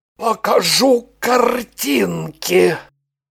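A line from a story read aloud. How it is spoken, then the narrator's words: Creaky voice. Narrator (Russian): Проскрипел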